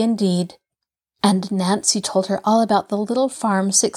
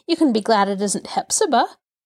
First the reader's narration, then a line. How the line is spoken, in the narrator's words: she chuckled